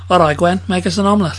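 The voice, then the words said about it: Put-on Welsh accent. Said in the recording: “Give us your best Welsh ... I do Welsh better in sentences ... that accent ... Got omelette wrong”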